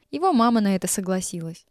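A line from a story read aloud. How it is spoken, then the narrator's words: Plain. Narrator (Russian): ответил Стасик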